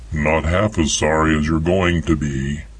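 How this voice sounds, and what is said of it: Deep male character voice. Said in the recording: “A deep voice came from the darkness.”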